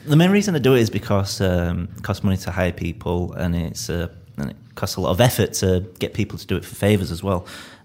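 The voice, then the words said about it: Leeds English accent. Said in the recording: “Leeds accent ... people really seem to get a kick out of my accent ... I'm from Leeds”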